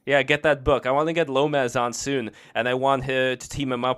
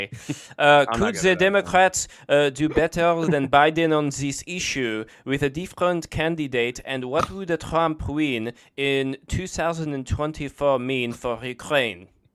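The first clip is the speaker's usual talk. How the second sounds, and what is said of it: Put-on French accent. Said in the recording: “No, say the question in a French accent.”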